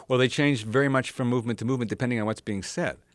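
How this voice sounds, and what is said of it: Fast speech, New York accent. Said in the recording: “I speak very quickly, that I sound have a New York accent”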